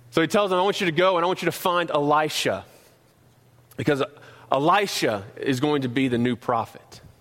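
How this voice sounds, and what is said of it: North Carolina Southern accent. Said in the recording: “my North Carolina accent”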